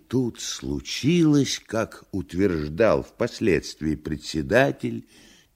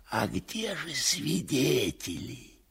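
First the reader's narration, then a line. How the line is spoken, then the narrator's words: Whisper in ear. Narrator (Russian): Шепнул в другое ухо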